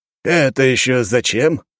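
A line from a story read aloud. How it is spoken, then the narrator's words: Skeptical snort. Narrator (Russian): хмыкнул Савелий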